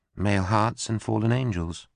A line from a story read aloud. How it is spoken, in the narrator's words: she murmured in a tiny voice